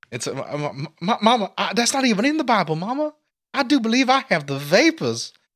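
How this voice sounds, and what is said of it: Put-on Southern accent. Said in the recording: “I don't know if I did a Southern accent there, and if I did, I'm sorry.”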